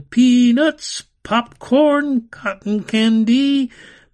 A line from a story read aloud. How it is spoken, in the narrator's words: Carnival barkers shouted